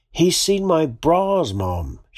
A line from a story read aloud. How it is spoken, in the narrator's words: yelled through the phone